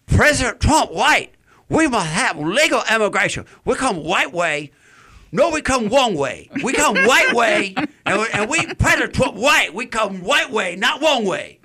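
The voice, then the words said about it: Convincing put-on accent. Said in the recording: “That's a convincing role you got there. Yeah. Your accent. It's pretty good.”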